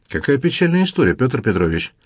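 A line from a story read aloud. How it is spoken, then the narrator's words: Artless amazed tone. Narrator (Russian): изумилась баронесса Корф столь бесхитростным тоном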